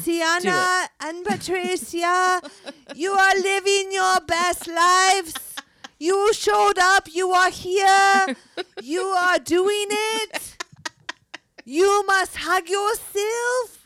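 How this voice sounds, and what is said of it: Put-on French accent. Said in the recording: “my French accent's getting better because she'll be like,”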